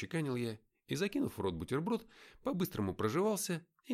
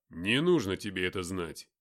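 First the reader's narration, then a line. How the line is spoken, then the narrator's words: Rough. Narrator (Russian): грубо сказал Матвей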